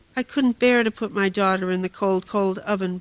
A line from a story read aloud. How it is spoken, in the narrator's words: Baba Yaga said